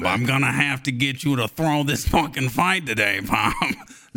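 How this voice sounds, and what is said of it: Tony Soprano-style mobster voice. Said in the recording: “Let me work on my Bob voice ... I'm a Tony Soprano type, right?”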